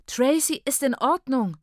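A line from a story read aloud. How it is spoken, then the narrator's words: Shout. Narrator (German): schrie ich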